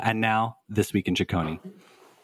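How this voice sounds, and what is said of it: Mock news journalist voice. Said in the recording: “in your best journalist voice”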